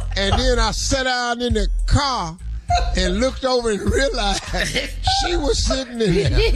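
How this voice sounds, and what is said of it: Usual voice. Nothing is said of it.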